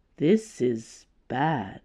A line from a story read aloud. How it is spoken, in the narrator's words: he said, in a low voice